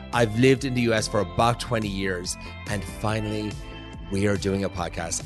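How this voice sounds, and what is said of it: Irish accent. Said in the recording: “with this accent, I know what you're thinking. Like, yeah, he's from Ireland.”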